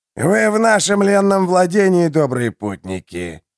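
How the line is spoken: Hoarse voice. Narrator (Russian): сообщил хриплый

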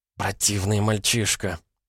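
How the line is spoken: Said quietly. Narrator (Russian): тихо сказала Дульси

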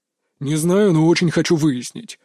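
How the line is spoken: Gloomy fatherly voice. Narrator (Russian): мрачно произнес отец

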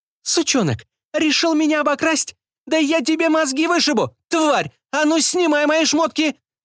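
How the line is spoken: Ultra-high-pitched shriek. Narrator (Russian): Завизжала хозяйка дома в ультразвуковом диапазоне

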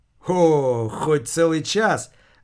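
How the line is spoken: Joyful exclamation. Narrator (Russian): Радостно воскликнул Антон

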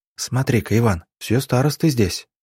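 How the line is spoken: Whisper. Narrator (Russian): шепнула Аннушка

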